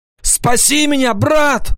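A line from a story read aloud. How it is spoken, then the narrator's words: Shout. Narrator (Russian): закричал он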